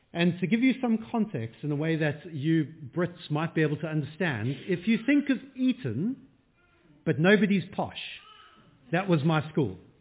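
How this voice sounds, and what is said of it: South African accent. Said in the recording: “you might notice from the accent, I'm not around from around here. From much further south, I come from South Africa”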